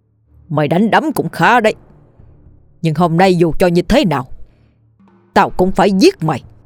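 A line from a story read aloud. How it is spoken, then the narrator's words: Harsh, gritted voice. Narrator (Vietnamese): Ông gằn giọng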